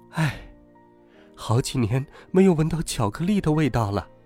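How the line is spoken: Sighing. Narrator (Chinese): 妈妈……叹了口气

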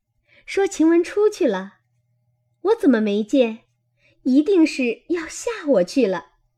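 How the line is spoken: Laughing. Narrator (Chinese): 又笑道

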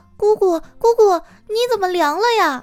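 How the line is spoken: Child yelling loudly. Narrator (Chinese): 小辉 他就大喊大叫的说

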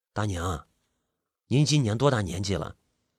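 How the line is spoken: Soft question. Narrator (Chinese): 我主动开了口，轻声的问道

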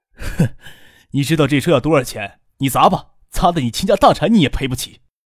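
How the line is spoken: Cold, furious sneer. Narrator (Chinese): 那青年 冷静下来，暴恼冷笑道

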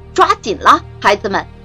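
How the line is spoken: Loud call. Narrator (Chinese): 他 … 大声对孩子们说

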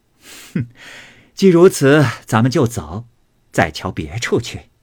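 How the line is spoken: Laughing. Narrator (Chinese): 凤姐听了，笑道

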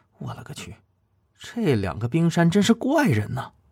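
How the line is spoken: Muttering. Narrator (Chinese): 他嘀咕说道

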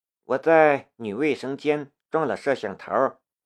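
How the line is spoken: Flat indifferent tone. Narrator (Chinese): 龙兵淡淡的道

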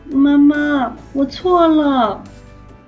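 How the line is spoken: Loud call after crying. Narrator (Chinese): 托比不哭了，在储藏室里大声喊

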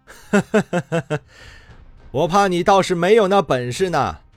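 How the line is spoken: Laughing. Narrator (Chinese): 李直笑道

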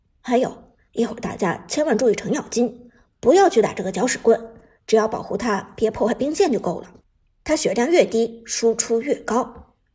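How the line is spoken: Low voice. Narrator (Chinese): 苏哲低声道

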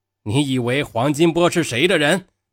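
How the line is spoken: Shouting. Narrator (Chinese): 刘贵铎又在那里喊

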